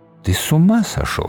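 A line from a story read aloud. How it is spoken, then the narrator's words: Quiet. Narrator (Russian): сказала она тихо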